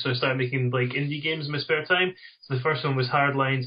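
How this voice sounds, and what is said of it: Mild Scottish Dundee accent. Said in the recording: “It's from Dundee in Scotland... my accent isn't quite as strong as some other people from the Dundee area.”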